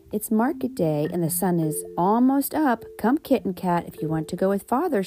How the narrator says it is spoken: she said

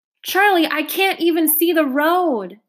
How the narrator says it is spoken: yelled

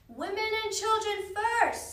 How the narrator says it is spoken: someone shouted

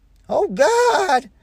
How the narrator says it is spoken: sobbed Mrs

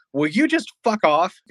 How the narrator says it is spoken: I yell

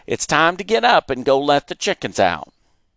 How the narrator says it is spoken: Mama shouted from the kitchen

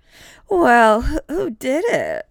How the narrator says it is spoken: She slurred

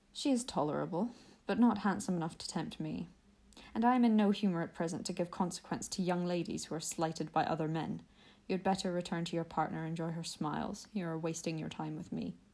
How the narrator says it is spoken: coldly said

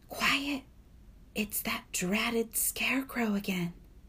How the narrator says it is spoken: Sophie gasped

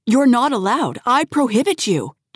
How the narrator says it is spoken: James shouted

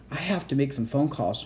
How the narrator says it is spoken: muttered

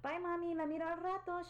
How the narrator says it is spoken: she shouted

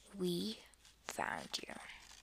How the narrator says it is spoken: whispered

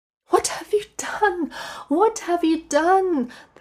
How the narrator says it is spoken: the woman cried

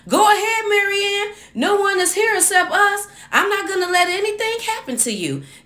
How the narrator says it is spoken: Collins yelled

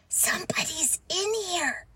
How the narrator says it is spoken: Josh whispered

